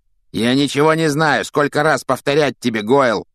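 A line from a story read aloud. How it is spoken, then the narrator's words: Growl. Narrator (Russian): рыкнул на него Малфой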